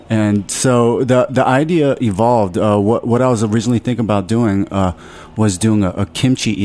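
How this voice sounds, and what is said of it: Usual voice. Nothing is said of it.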